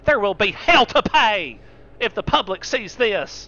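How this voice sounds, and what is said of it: Bad impression with Southern accent. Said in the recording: “that's a bad Lindsey Graham impression. Let me try again ... He talks just like my southern grandma”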